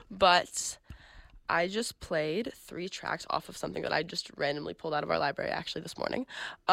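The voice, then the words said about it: Slightly weird, sick-sounding voice. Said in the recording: “Sorry if my voice is coming out a little bit weird. I'm a little bit sick.”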